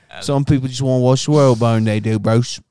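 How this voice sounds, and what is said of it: Imitates a British film character's voice. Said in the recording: “do that Alfred impression again”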